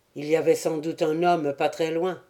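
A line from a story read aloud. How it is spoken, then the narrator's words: Even voice. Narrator (French): reprit le capitaine Vincent d'une voix unie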